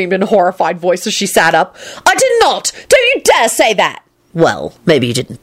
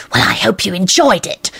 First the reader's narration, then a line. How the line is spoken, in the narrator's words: she hissed to Lupin in an ominous voice